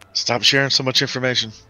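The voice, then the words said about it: Whispering. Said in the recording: “do you whisper that”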